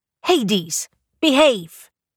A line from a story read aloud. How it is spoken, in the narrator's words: Morgana shouted at him